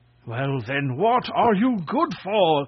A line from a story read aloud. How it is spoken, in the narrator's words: cried the king in a fury